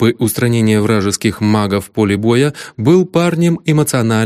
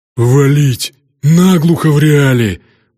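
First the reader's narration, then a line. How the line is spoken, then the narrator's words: Orc growling. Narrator (Russian): прорычал орк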